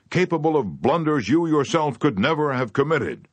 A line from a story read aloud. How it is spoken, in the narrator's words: shouted